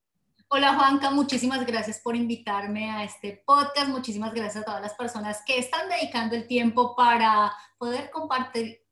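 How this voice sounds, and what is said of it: Colombian Spanish accent. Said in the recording (Spanish): “yo creo que ya por el acento lo vamos eh, deduciendo ... Soy colombiana”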